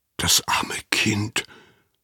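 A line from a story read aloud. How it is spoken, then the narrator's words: Whispered. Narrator (German): flüsterte Anna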